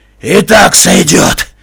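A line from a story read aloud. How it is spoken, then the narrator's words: Rasped. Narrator (Russian): прохрипел он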